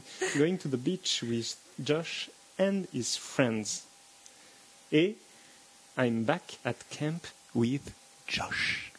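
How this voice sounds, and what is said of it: English read with pretty accent. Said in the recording (French): “ton joli accent”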